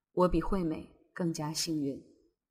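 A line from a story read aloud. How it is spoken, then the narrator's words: Muttering to herself. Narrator (Chinese): 妻子 心里却暗自嘀咕着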